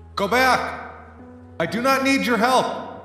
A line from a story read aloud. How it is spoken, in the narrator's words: shout out